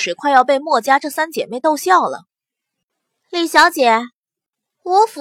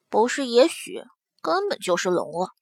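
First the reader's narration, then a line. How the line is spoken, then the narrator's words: Quiet muttering. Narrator (Chinese): 莫思秀也小声的嘀咕了一声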